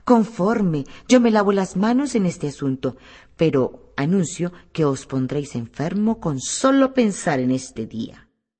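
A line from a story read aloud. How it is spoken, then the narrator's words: Doctor exclaiming. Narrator (Spanish): el médico exclamaba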